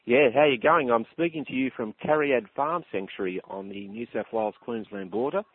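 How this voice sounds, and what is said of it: Australian accent. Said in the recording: “I can tell the Australian accent.”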